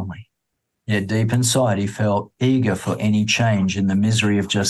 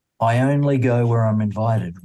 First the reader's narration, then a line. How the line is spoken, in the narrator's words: replied the visitor